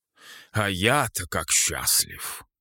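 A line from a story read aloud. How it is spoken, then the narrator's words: Grumbling. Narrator (Russian): проворчал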